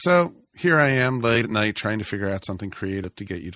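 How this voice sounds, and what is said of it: Usual voice. Nothing is said of it.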